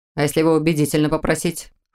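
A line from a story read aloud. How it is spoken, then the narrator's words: Snorting. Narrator (Russian): хмыкнул Мор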